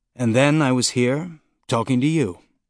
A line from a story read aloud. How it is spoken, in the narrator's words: he said dryly